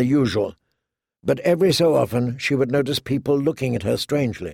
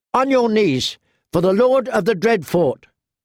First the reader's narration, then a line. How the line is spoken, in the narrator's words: shouted his squire, a boy no older than Arya